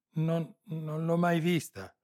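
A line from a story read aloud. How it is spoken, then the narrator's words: Stammering. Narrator (Italian): balbettò l'altra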